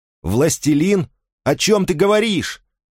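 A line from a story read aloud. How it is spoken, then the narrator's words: Extremely loud shouting. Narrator (Russian): Фарид кричал так, что даже адский пес пригнул голову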